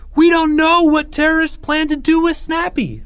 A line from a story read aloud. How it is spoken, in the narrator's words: Leo cried out